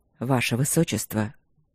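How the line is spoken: Hoarse, strained voice. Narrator (Russian): голос сиплый, затрудненный, словно он выталкивал из себя слова

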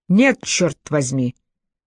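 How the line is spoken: Almost harsh. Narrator (Russian): Байт звучал почти резко

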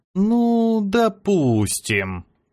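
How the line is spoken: Drawn out, stalling. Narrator (Russian): протянул я, стараясь потянуть время

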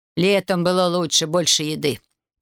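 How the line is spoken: Grumbling woman. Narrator (Russian): пробурчала женщина

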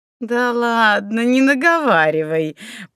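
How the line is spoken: Laughing. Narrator (Russian): рассмеялась хозяйка Медной горы

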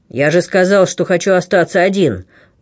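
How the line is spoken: Threatening repetition. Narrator (Russian): угрожающим тоном повторил

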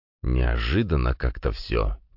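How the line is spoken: Quiet. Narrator (Russian): тихо сказал Виссарион

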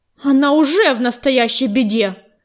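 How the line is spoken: Growling sandstorm voice. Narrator (Russian): прорычала песчаная буря

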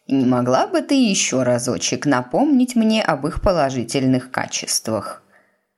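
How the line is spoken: Sugary sweet voice. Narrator (Russian): Миссис Пруст сказала сладеньким голосом

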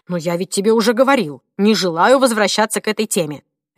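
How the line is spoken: Sharp reply. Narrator (Russian): резко отвечал муж

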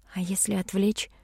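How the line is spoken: Whispered suggestion. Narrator (Russian): шепотом предложила

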